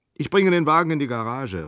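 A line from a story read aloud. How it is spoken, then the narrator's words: Calling out. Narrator (German): rief Geigern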